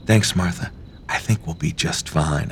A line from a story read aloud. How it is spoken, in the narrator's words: I whisper back to her